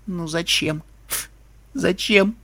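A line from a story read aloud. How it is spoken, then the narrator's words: Sobbing whisper. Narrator (Russian): прошептала единорожка, содрогаясь в рыданиях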